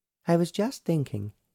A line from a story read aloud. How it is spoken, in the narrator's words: said